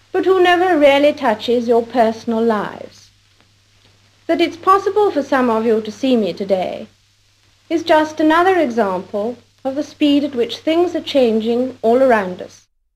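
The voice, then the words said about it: Cut-glass upper-class English accent. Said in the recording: “how very unusual her accent is. The cut-glass pronunciation sounds more like the kind of English spoken by the British upper classes in the 1940s and 1950s, and is sometimes called conservative received pronunciation”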